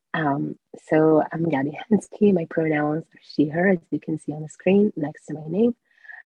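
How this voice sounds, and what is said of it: Strained, unwell-sounding voice. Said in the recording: “sorry about my voice. ... I'm currently recovering.”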